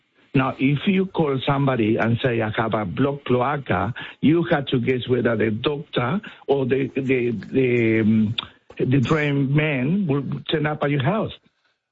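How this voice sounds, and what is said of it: Strong Spanish South American accent. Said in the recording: “I have a very strong Spanish accent. I come from South America, born in Argentina”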